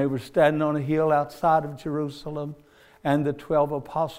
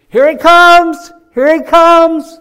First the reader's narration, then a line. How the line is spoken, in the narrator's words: somebody hollered down and said